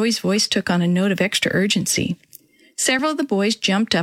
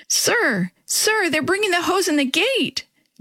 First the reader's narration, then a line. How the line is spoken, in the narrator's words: Joey fairly squealed